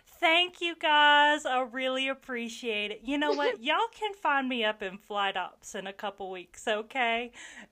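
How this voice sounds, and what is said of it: Thick put-on Southern accent. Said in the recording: “I put on my thickest southern accent that I could”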